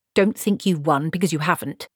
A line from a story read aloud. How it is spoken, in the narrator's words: snapped